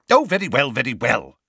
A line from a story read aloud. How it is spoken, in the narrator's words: snapped Fudge